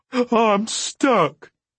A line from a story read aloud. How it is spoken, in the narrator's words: cried in a panic-stricken voice